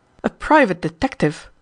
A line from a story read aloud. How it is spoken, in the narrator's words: exclaimed Wraxall, somewhat surprised at this charge